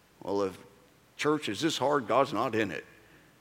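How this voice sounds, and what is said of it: Put-on country twang accent. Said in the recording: “country twang ... go into hick when you start talking like that”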